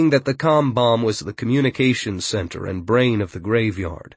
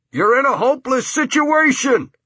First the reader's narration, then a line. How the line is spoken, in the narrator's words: the juvies yell through their bullhorn